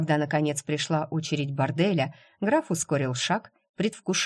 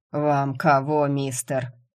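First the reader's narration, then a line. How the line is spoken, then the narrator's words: Hoarse man's question. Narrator (Russian): хрипло спросил мужчина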